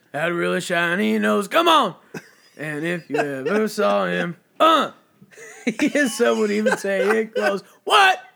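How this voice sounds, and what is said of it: Imitates another person's voice. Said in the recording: “You got a really good DMX impression.”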